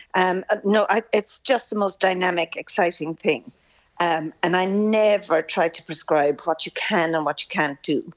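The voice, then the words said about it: Croaky, throaty voice. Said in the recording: “Excuse me, sorry, I've a frog in my throat.”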